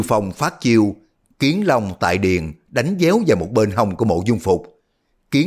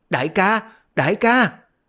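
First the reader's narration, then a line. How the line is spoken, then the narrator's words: Frightened cry. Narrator (Vietnamese): Đoàn Dự bất giác sợ hãi, miệng la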